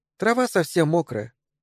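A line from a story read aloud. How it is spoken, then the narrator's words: Sad. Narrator (Russian): грустно сказала Мэри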